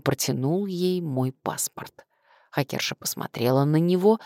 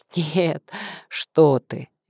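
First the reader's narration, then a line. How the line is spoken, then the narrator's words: Polite giggle. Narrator (Russian): Дима вежливо хихикнул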